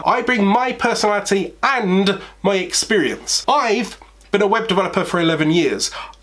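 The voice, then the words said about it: British accent. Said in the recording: “a quirky British accent”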